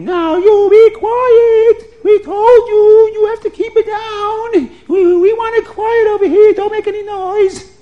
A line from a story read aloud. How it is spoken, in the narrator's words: the neighbors would scream